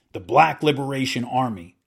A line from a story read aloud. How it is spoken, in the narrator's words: Cawley growled